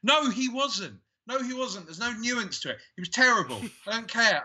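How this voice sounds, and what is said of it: Shouting, ranting delivery. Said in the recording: “I'm going Alex Jones now. I am. I'm shouting.”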